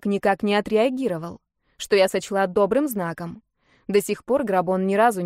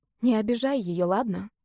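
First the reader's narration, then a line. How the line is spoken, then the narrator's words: Barely audible request. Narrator (Russian): чуть слышно попросила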